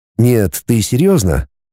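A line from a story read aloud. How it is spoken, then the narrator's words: Affectionate. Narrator (Russian): сказал я ласково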